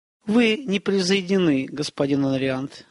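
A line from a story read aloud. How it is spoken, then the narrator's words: Plain. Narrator (Russian): сказала она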